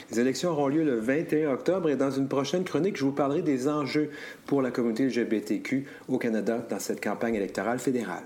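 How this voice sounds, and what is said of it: Canadian French accent. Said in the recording (French): “Ça fait toujours agréable et du bien d'entendre cet accent. ... Euh, canadien.”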